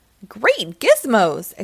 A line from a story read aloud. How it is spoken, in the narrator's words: exclaimed Bot